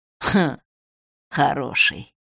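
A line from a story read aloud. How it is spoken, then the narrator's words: Old man's grunt. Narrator (Russian): хмыкнул дед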